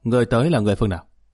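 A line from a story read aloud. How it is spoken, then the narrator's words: Shouted command. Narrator (Vietnamese): Hai thị vệ quát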